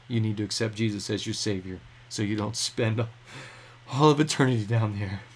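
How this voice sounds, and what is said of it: Choked-up, emotional voice. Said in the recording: “I'm getting choked up.”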